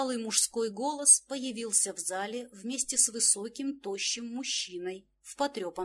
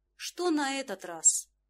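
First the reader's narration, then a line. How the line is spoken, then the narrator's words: Weary, resigned tone. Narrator (Russian): Тон мужчины превратился в устало обреченный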